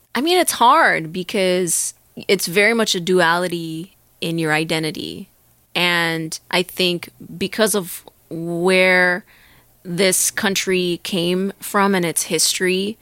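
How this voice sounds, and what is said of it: American accent. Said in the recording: “my American accent is the one accent that I predominantly use ... on the day to day”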